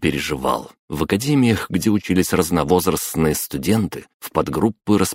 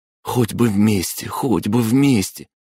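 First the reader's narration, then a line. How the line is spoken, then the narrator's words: Excited whisper. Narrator (Russian): взволнованно прошептал Дима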